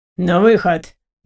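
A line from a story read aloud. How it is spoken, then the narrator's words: Stern command. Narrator (Russian): Грозно скомандовал нам полицейский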